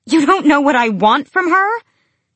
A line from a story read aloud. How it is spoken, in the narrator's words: more of a shout than a question